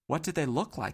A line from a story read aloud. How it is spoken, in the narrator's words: asked Dodd, jumping in too quickly